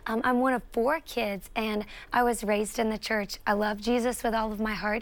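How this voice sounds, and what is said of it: Southern US accent. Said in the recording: “I'm a South Carolina girl. If you can't tell from my accent, I love the South.”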